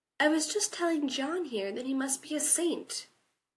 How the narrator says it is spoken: Sam said sweetly

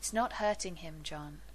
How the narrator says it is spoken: Carson says gently

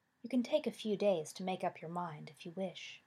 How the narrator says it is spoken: she said kindly

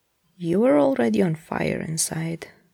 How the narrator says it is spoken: Gabriel says calmly behind him

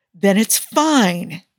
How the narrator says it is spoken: Tony exclaims

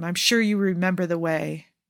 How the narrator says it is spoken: Jafar murmurs

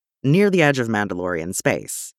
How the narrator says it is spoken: he says

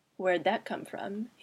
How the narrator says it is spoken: he murmured, as quietly as possible to avoid drawing the attention of the tutor or other students

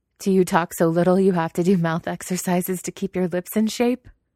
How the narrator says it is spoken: Wei Wuxian laughs at his own joke

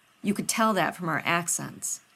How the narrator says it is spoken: Rodney scoffed

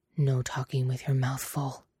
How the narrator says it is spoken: he grunts

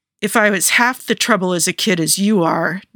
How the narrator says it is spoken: Natasha growled

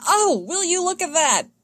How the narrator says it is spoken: yells Anakin

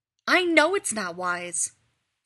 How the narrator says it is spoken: Rodney snaps

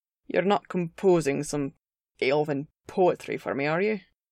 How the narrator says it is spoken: Gimli grumbled, though his tone was fond

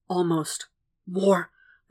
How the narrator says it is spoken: Will hisses

